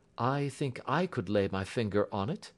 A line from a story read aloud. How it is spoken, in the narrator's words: said Holmes quietly